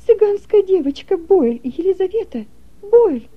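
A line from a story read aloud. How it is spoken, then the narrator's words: Exclaiming. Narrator (Russian): воскликнула графиня Ульрика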